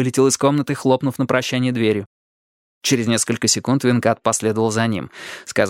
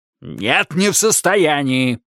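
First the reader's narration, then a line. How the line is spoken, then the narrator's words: Bark. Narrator (Russian): рявкнул в ответ Тедди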